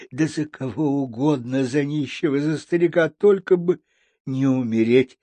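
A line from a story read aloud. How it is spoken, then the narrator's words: Exclamation. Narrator (Russian): воскликнула она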